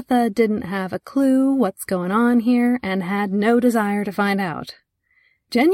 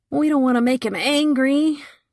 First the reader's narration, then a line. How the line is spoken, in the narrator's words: Another man whined